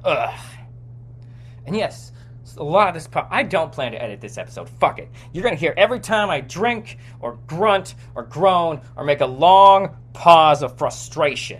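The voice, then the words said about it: Yelling, aggressive frustrated delivery. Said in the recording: “I'm sorry if that's aggressive. I'm not mad at you, the listener ... because I'm yelling.”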